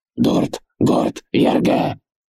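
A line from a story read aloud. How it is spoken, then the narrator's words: Barked. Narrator (Russian): рявкнул Ургаш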